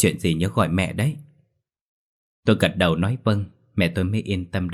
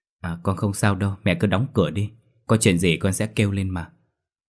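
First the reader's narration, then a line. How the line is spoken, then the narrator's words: Smiling, reassuring. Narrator (Vietnamese): Tôi mỉm cười trấn an mẹ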